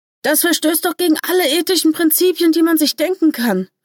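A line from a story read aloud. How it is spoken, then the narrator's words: Firm exclamation. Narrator (German): rief bestimmt aus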